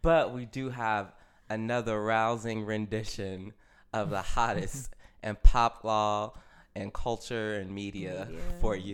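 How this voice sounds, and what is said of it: Hoarse, deep voice. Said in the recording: “I'm a little hoarse ... sounding like Barry White”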